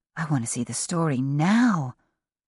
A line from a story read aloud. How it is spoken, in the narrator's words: Joss whispered